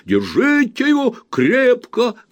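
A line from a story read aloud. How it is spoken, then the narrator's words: Shouting. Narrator (Russian): кричал мистер Снодгресс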